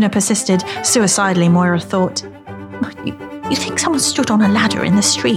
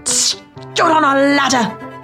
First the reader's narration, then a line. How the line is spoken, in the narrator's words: he finished triumphantly